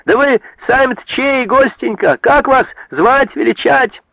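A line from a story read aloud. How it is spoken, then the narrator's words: Calling out after someone. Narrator (Russian): Василиса уже вдогонку крикнула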